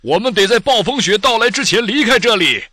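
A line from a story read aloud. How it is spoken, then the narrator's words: Loud shout. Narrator (Chinese): 飞行员大声喊道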